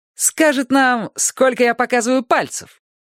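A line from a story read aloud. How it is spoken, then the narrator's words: Giggling. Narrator (Russian): она хихикнула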